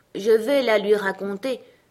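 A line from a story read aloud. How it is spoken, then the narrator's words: Hollow, cavernous voice. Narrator (French): répondit la simili-tortue d'une voix caverneuse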